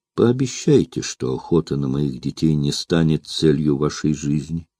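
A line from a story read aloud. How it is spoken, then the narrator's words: Quiet, soft. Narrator (Russian): тихо молвила она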